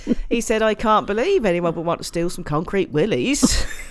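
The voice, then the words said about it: Put-on West Country accent. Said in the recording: “I can't do a North Yorkshire accent. I'll just go West Country. ... I'm sorry about the accent. I can't do it.”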